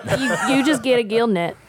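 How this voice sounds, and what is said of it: Imitates another person's voice. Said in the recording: “I was imitating what Devin said.”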